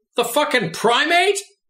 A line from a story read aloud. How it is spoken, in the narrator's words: he shouted out gleefully